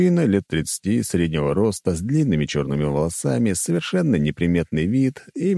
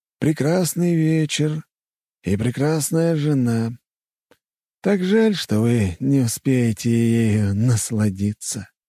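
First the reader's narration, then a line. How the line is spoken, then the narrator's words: Sighing stranger. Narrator (Russian): вздохнул незнакомец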